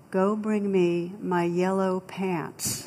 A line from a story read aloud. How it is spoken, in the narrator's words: the captain very calmly replied